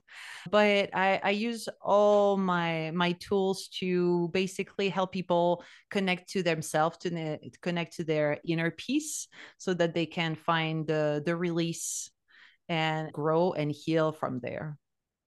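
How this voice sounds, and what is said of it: Slight French accent. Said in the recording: “You can hear from the accent. There is a little bit of French”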